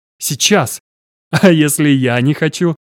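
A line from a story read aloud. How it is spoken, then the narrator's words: Almost laughing. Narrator (Russian): Почти рассмеялся он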